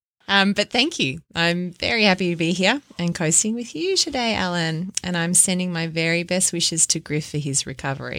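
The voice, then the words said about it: Thick Australian accent. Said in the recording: “How I've missed that Australian accent... That accent has come back thick and very thick”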